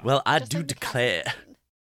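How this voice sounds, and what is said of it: Southern accent, Benoit Blanc impression. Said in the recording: “I'm not very good at doing a southern accent. It was becoming Benoit Blanc at the end there. ... doing a Benoit Blanc impression”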